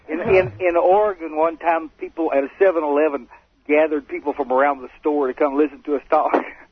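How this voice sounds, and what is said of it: Strong regional accent. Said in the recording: “Listen to that accent... Not with that voice... We go anywhere, people know where we're from.”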